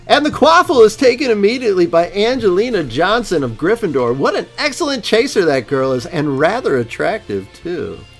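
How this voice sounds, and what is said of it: Fake sports announcer voice. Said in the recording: “use your announcer voice and everything? ... I'm going to use my fake announcer voice.”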